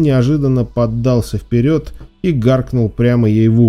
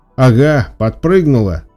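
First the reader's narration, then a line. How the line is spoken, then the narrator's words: Laughing. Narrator (Russian): засмеялся он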